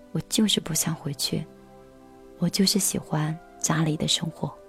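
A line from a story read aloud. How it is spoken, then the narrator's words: Murmuring to oneself. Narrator (Chinese): 喃喃的、喃喃自语的说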